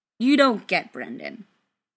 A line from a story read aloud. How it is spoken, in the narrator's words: Ryan said firmly instead